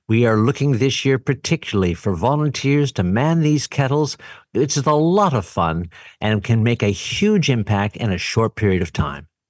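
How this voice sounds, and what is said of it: Polished professional radio voice. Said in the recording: “you have such a great radio voice ... You sound so good. You sound so professional.”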